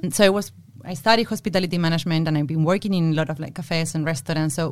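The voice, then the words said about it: Argentinian Spanish accent in English. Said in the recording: “as you can probably tell by my accent, I'm Argentinian”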